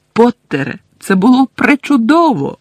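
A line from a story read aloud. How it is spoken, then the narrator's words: Exclaimed. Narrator (Ukrainian): вигукнула професорка МакГонагел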